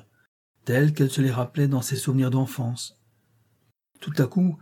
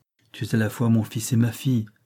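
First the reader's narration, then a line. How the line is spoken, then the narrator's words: Plain. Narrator (French): dit-elle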